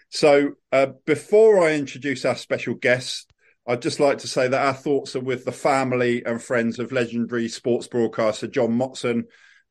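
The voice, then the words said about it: Congested voice from a cold. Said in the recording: “I've got a cold, so my apologies if I sound a bit like a Dalek”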